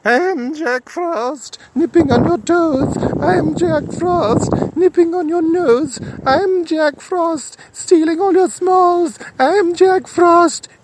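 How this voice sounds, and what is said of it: High-pitched sung character voice. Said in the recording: “He was singing a song in a high pitched voice.”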